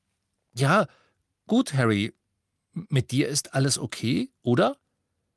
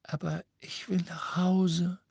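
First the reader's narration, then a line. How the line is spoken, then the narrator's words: Girl whispering. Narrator (German): flüsterte das Mädchen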